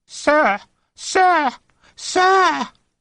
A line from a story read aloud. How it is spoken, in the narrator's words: the boy screeched